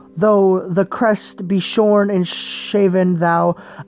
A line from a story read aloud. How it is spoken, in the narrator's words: said